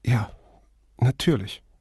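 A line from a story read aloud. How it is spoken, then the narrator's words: Speech then sob-hiccup. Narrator (German): hörte er Flavia sagen, gefolgt von einem Geräusch, halb Schluchzen, halb Schluck auf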